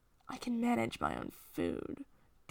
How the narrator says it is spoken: Doc grumbles

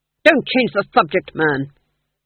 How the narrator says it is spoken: snapped the Duke, pulling himself together

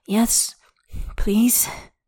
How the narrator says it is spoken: Xie pants

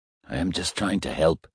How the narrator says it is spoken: he said, feebly

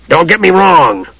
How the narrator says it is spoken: Flint growled

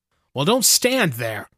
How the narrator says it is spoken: cried Theramon impatiently

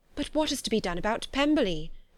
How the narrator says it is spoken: cried Mrs

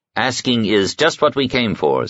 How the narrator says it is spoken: said

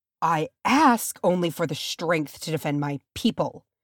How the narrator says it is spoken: Boromir spat bitterly, and oh, the pain on his face

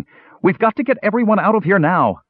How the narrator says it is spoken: She was ... shouting

